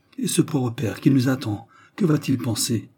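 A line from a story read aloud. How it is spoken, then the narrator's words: Contrite exclamation. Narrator (French): elle s'écria, d'un ton contrit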